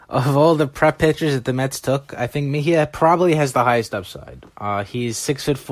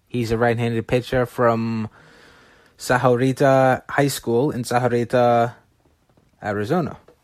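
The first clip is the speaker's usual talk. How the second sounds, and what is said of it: Put-on Spanish accent pronunciation. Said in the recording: “You like my Spanish accent there.”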